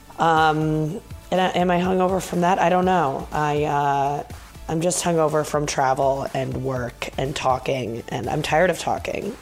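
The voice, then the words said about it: Low creaky vocal fry voice. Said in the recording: “I think I have vocal fry. Someone told me that I do ... it's the only way to preserve my voice is to talk from a place of this, as opposed to talking up here”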